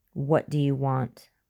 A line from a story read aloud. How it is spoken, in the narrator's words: William said, his voice sounding tremulous and scared, like a baby's